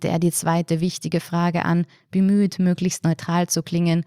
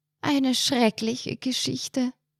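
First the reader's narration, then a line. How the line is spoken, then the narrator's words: Exhausted audible sigh. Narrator (German): seufzte Frau Ilse hörbar erschöpft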